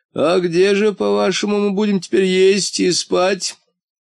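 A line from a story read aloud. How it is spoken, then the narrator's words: Creaky voice. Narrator (Russian): скрипучим голосом осведомился полботинка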